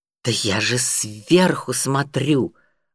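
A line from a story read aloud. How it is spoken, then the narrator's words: Irritated. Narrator (Russian): раздраженно ответил Юрик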